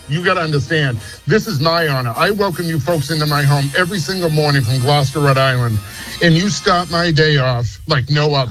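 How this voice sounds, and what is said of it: Noticeable regional American accent. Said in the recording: “Your accent is making me so happy.”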